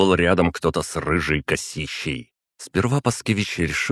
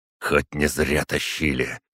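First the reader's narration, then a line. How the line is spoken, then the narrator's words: Hissed under breath. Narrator (Russian): прошипел себе под нос Паскевич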